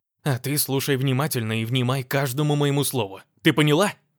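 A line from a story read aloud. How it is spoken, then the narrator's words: Man barking. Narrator (Russian): Рявкнул напоследок мужчина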